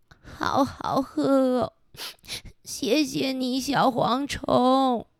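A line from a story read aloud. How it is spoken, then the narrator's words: Crying. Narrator (Chinese): 一边哭，哭着说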